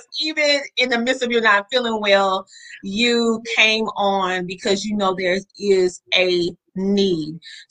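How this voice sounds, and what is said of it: Southern American twang. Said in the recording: “they can hear my Southern twang”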